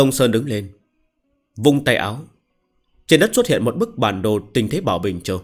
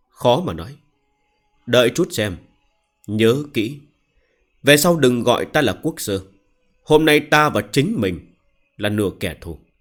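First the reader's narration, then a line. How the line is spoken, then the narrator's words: Sighing. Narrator (Vietnamese): thở dài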